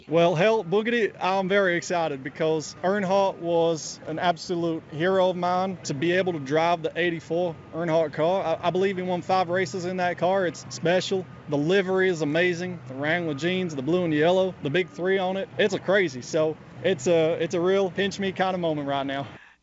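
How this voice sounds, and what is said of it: Put-on American Southern accent, rather good. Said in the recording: “Ricciardo even tried out his American Southern accent to add some authenticity. ... You know, that's rather good.”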